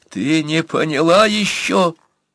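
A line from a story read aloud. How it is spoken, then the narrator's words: Near sobbing. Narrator (Russian): Почти зарыдал Бурса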